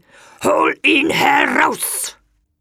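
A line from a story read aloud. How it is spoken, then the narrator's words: Monster roaring. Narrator (German): das Ungeheuer brüllte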